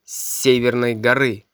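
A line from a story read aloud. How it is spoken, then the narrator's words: Gruff mutter, stranger. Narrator (Russian): буркнул незнакомец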